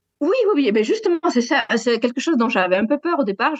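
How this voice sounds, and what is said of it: Southwestern French accent. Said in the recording (French): “j'ai un accent du sud-ouest”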